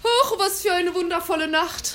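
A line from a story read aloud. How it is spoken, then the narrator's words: Santa calling out. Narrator (German): rief der Weihnachtsmann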